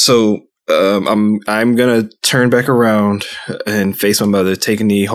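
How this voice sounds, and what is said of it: Usual voice. Nothing is said of it.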